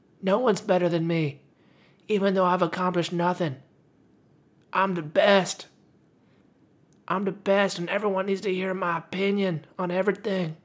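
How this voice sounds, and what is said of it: Mocking impression of young people. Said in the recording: “that was my impression of people under 20”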